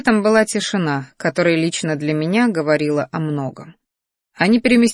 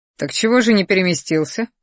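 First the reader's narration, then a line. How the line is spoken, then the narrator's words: Snort. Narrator (Russian): хмыкнул я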